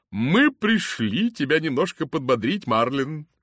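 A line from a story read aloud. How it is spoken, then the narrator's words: Cheerful. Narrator (Russian): весело сказала она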